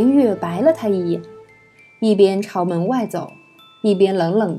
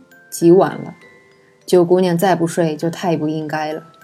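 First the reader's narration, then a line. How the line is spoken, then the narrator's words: Flat, indifferent. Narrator (Chinese): 淡淡道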